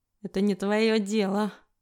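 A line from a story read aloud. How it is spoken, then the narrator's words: Through gritted teeth. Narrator (Russian): сквозь зубы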